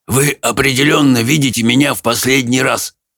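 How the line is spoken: Hoarse proclamation. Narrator (Russian): хрипло провозгласил он

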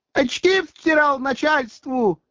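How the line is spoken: Yelling. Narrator (Russian): орал девица

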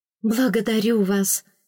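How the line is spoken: Relieved breath, young woman. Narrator (Russian): с облегчением выдохнула юная фрейлина

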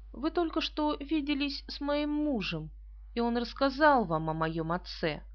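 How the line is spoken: Calm. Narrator (Russian): она спокойно сказала

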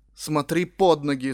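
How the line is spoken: Stern scolding. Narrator (Russian): строго отчитала меня она

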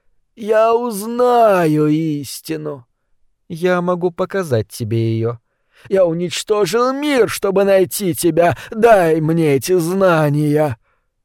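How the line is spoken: Warm, smiling. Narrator (Russian): Лермента ласково улыбнулась

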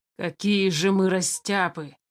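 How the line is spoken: Angry. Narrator (Russian): зло проговорил Тулис

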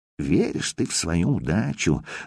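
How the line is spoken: Envious whisper. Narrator (Russian): завистливо прошептал Хавчик

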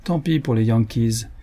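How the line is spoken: Cold. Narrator (French): fit froidement

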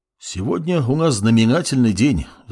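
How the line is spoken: Sighing bald man. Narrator (Russian): вздохнул лысый мужчина

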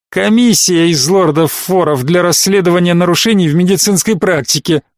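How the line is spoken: Laughing loudly. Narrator (Russian): он расхохотался

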